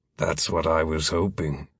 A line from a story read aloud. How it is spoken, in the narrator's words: Philip muttered